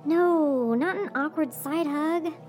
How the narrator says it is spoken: Jordan whined

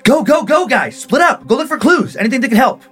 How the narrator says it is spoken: Lena was yelling in her ear

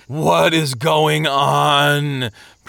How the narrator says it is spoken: Presumption moaned

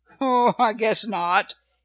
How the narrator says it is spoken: he said with a laugh

